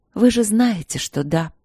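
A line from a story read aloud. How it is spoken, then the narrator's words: Tired reply. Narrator (Russian): устало ответила я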